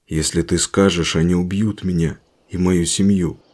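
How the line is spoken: Soldier's mutter. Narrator (Russian): пробормотал военный

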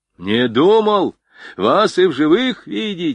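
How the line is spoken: Excited shouting. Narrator (Russian): взволнованно кричал поручик

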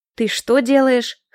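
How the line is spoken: Snorting. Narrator (Russian): хмыкнул Ричи

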